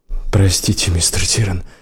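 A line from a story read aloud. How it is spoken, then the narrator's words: Frightened. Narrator (Russian): испуганно проговорил Келл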